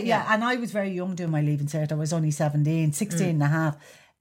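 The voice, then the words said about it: Dublin Irish accent. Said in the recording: “an accent like mine just didn't appear ... I needed to refine my accent. Now, I'm a dub.”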